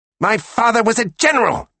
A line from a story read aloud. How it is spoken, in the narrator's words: Mackie shouted in English